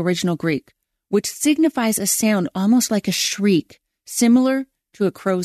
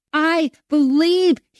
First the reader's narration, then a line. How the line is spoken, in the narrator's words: cried